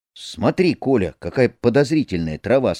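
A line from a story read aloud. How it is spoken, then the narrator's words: Plain. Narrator (Russian): сказал я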